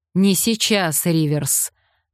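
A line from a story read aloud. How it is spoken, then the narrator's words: Barked. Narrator (Russian): рявкнул Майкл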